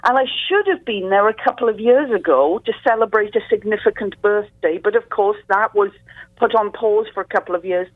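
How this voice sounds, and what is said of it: Deep Welsh-accented female voice. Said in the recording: “what they're hearing is a Welsh accent here ... you're getting my deep and sultry voice because it's 8 o'clock in the morning”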